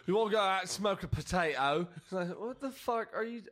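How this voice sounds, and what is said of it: Poor attempted Irish accent, sounds English. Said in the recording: “what was that accent? ... That was English still. I just realized I was trying to do an Irish one. Or Irish. ... You're going to have to work on that one.”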